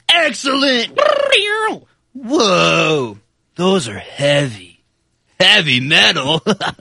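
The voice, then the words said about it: Impression of Ted from Bill and Ted. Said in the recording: “my other one is of Ted from Bill and Ted. It's Excellent Adventure.”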